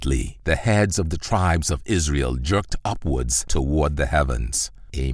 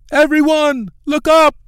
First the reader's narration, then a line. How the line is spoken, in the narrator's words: shouted